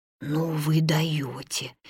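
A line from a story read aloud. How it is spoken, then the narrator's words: Barely audible breath. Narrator (Russian): едва слышно выдохнул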